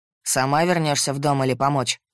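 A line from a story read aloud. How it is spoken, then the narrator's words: Rough question. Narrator (Russian): Грубо спросил мужчина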